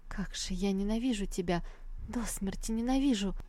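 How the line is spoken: Disappointed whisper. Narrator (Russian): Не сдержав разочарования, она прошептала ему на ухо

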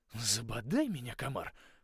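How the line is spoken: Mutter. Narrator (Russian): пробормотал

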